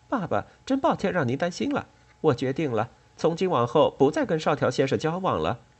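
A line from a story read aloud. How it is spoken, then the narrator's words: Smiling, apologetic. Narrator (Chinese): 静江冲快气炸了的父亲笑笑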